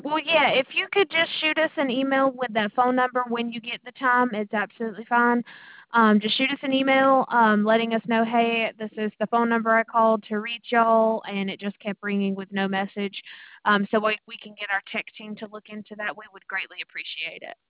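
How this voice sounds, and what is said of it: Southern American accent, Mississippi. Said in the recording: “I like your accent. ... North Carolina? ... Mississippi.”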